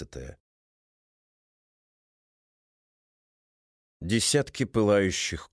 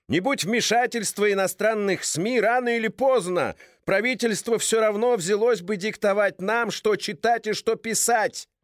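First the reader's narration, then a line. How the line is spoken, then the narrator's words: Shouting into microphone. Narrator (Russian): кричал в микрофон представитель просвещенных сил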